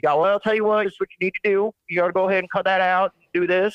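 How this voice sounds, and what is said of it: Imitated charming Southern accent. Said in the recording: “that charming Southern accent.”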